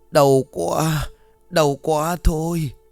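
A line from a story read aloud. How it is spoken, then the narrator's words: Pained moaning. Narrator (Vietnamese): Ông Sơn đông bụng rên rỉ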